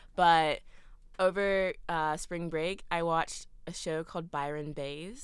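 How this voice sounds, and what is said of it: Usual voice. Nothing is said of it.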